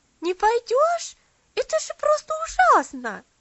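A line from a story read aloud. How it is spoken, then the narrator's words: Indignant shout. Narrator (Russian): Возмущенно закричала Луси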